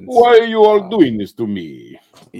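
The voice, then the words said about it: Russian accent. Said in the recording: “Very clearly from Russia with that accent.”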